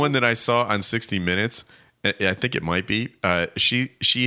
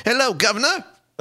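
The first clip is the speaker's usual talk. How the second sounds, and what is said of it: Over-the-top exaggerated British accent. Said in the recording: “She's not just British accent. She's Dick Van Dyke British... she is way over the top”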